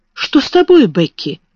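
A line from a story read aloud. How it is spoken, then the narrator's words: Exclaiming. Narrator (Russian): воскликнула Сара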